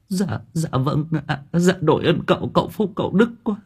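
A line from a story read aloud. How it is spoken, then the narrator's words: Tearful, near crying. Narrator (Vietnamese): Bà Thu mếu máo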